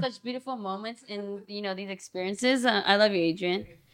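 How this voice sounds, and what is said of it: Imitates another person's voice. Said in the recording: “impersonate my friends ... Do Adrian”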